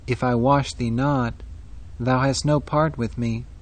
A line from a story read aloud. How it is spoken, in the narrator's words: Solemnly Christ said to Peter